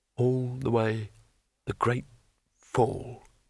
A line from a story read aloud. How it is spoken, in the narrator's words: muttered Rincewind